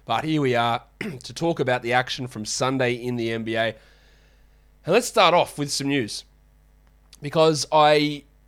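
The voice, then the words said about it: Sniffly, congested, slightly off voice. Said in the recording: “Yes, I am sick... hear my voice is a little bit off, actually, so I'm just a bit sniffly, a bit congested, voice is off. I'm going to clear my throat probably a couple of times”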